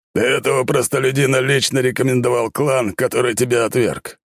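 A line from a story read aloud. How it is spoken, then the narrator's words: Smirking snort. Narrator (Russian): хмыкнул капитан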